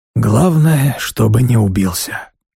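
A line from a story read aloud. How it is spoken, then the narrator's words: Sighing. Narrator (Russian): вздохнул Сергиус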